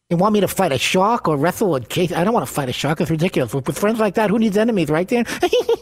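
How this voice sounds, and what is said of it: Imitates another person's voice. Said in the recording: “do a Mike Tyson impression ... his Mike Tyson impersonation”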